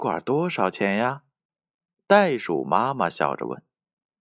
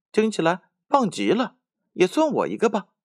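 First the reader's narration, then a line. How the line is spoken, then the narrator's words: Giggling. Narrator (Chinese): 小熊咯咯的笑着说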